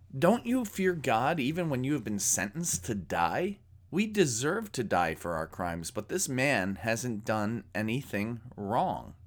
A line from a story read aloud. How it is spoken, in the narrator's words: this criminal rebukes the mocking criminal by saying